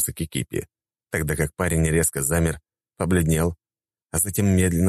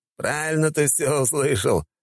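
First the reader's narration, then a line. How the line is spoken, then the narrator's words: Chuckling. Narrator (Russian): хохотнул он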